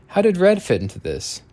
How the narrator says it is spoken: Weems sighed

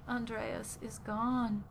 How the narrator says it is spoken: sobbed

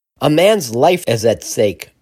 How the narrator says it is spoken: shouted

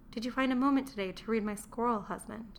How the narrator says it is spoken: she asked in a timid voice

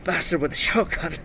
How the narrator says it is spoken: I said, my voice rasping with effort

